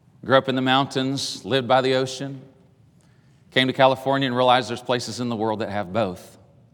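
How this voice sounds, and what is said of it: East Tennessee Southern accent. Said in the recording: “I grew up in the hills of East Tennessee. I'm sure when I speak, you cannot tell. ... I didn't know I had an accent”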